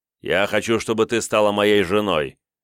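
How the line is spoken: Sharp interruption. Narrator (Russian): резко перебил Мендовк

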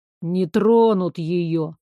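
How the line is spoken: Lazy reply. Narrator (Russian): лениво отозвался Балабол

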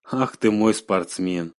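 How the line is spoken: Said tenderly. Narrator (Russian): ласково сказала Ксюша

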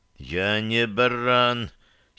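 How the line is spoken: Hoarse objection. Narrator (Russian): сипло возразил я

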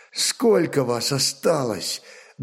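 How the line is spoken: Trembling-voiced question. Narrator (Russian): дрогнувшим голосом спросил Ольг

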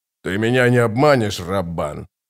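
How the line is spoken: Gruff mutter. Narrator (Russian): буркнул барон

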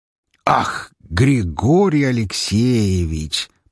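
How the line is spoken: Drawn-out exclamation. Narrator (Russian): протянул Лазарев

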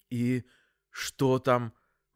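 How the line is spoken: Forced out with difficulty. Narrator (Russian): выдавил с трудом

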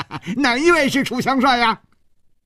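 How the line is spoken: Smiling. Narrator (Chinese): 走在最前面的一个人…笑着说

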